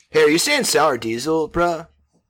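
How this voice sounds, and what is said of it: Put-on Southern California accent. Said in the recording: “I don't know why I gave Joe Rogan a SoCal accent, but that's how Joe Rogan sounds in my head.”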